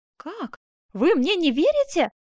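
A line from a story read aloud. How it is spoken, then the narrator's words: Puzzled exclamation. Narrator (Russian): воскликнула озадаченная Скацоне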